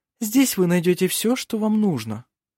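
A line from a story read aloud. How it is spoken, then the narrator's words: Desperate ingratiating coo. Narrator (Russian): проворковала Феодора, делая последнюю отчаянную попытку расположить его к себе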